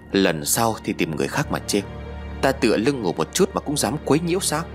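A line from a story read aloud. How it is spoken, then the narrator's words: Harsh growl. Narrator (Vietnamese): ông ta gằn giọng nói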